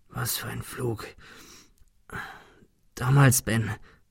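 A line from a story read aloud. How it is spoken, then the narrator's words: Stammering. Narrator (German): stammelte er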